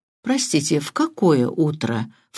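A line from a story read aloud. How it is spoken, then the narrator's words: Insinuating question. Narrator (Russian): вкрадчиво спросил инспектор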